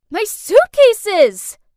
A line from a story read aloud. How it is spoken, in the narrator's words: I yelled